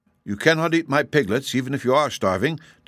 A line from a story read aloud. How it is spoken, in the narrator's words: declared the little man in a stern voice